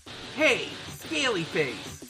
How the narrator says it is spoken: Sonic shouts

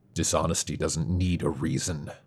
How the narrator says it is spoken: Travis growled

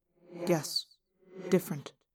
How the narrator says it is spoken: I muttered

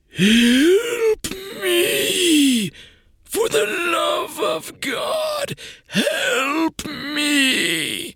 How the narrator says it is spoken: the phantasm screamed

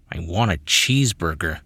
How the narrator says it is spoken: Reese muttered

